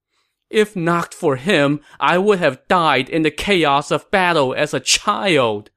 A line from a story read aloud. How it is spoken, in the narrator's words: Liu Shan said as he wailed